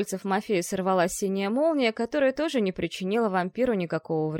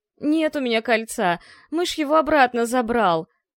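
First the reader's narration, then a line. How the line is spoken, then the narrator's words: Moaning. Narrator (Russian): простонал Жак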